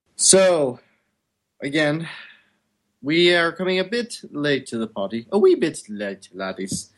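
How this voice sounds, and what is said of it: Badly done put-on accent. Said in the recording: “Stop with the accent. You're awful at it.”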